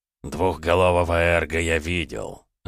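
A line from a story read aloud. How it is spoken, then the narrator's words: Thoughtful mumble. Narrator (Russian): задумчиво пробормотал Райо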